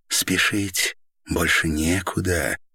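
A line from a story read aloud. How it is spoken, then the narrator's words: Whisper. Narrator (Russian): шепнула Це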